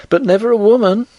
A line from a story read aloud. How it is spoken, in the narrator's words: cried the girl